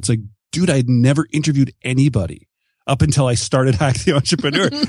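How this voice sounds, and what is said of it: Canadian accent. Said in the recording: “your Canadian accent”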